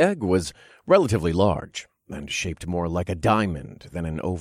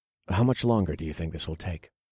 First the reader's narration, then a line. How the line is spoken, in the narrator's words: I asked in a gentle tone